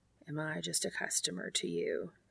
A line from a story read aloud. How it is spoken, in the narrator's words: he whispers